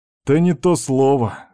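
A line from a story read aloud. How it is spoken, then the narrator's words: Smirking snort. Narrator (Russian): хмыкнул Степан с усмешкой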